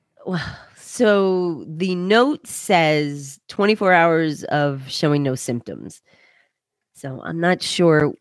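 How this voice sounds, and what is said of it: Congested, stuffy-nosed voice. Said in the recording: “congested. ... Like, my head's very stuffy. Obviously, you can tell by my voice.”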